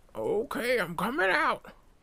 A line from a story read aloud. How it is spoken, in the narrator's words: I made the old man shout